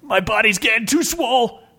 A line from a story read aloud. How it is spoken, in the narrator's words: shouted Bill, wincing in pain